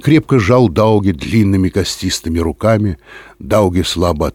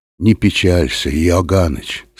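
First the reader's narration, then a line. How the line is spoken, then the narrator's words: Quiet. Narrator (Russian): сказал он тихо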